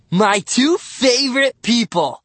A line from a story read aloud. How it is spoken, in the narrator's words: he exclaimed